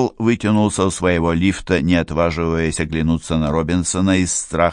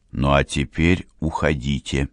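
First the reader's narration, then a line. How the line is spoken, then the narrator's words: Quiet but firm. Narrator (Russian): тихо, но решительно сказал Карл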